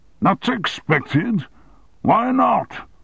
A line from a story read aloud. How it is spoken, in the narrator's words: bellowed Armstrong